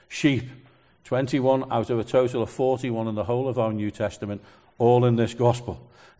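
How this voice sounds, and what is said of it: Liverpudlian accent. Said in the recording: “I can't say that word properly ... because of my Liverpudlian accent ... I can't pronounce my R's”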